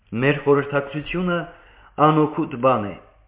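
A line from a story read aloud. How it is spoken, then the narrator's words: Plain. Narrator (Armenian): ասաց Արմենակը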